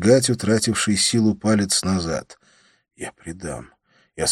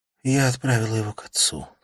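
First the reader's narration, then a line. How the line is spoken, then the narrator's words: Whispering. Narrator (Russian): прошептала она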